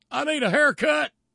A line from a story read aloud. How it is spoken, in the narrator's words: And hollers